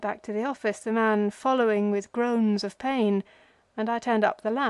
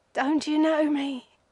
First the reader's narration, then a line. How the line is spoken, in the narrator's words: gasped